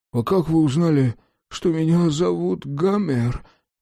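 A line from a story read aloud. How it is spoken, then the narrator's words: Whimpering. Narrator (Russian): прохныкала жирная клякса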